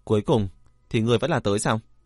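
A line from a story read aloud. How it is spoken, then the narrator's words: Cold, irritated voice. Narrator (Vietnamese): đang khó chịu, lạnh lùng nói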